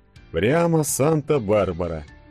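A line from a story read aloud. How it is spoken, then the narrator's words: Muttered. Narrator (Russian): пробормотал Денис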